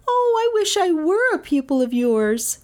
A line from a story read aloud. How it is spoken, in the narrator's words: she cried